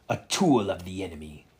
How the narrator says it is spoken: Dracula spat

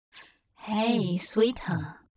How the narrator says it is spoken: Hop murmured

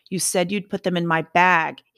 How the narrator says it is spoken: shouted down at her

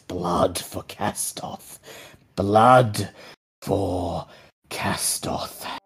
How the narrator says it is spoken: a voice whispers in your mind

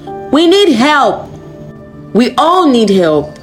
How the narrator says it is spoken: a female student shouted, staring angrily

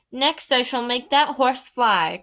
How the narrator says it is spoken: cried the king

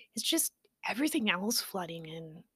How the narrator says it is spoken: Poppy said sadly

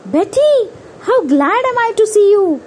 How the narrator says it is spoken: Gus cried in joy

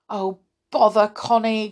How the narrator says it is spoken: groaned Joe

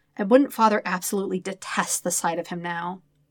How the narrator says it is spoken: Sokka sighs

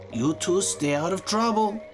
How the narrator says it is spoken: she yelled

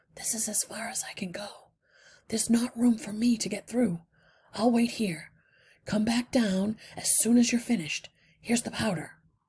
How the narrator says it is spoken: Justin whispered

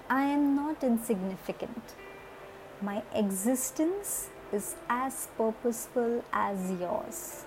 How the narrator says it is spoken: The snail smiled and replied calmly

